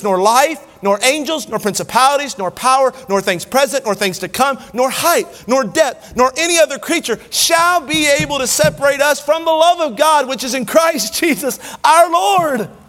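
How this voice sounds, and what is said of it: Excited screaming preacher. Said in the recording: “I'm not screaming because I'm angry. I'm screaming because I'm excited.”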